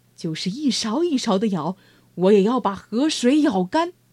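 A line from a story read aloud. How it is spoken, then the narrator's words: Angry. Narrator (Chinese): 牛郎愤怒地说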